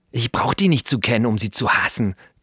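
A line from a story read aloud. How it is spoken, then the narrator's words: Hissed. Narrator (German): zischte Flo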